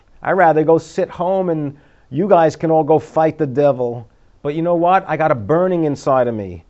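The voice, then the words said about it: Abrasive, abrupt New York accent. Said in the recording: “I got this New York accent that's abrasive and abrupt”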